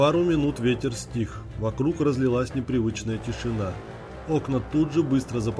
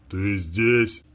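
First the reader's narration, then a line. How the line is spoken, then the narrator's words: Rough inhuman wheeze. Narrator (Russian): Каким-то грубым, нечеловеческим голосом прохрипел дед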